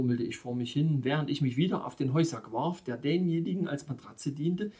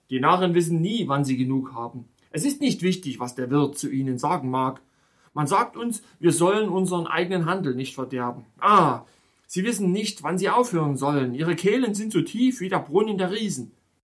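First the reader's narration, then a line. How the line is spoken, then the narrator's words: Disgusted call, innkeeper. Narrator (German): rief der Wirt mit einer Geste des Ekels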